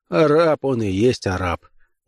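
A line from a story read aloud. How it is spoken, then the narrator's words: Laughing. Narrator (Russian): Реттел засмеялся и сказал рабыне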